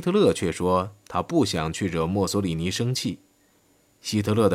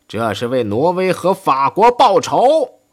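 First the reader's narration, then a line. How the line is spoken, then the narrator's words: Shouting. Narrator (Chinese): 他喊道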